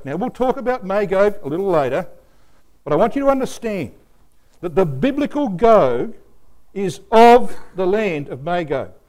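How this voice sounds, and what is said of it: Australian English accent. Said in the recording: “a brother of the land of Australia... I'm not an American. You can tell that by my accent.”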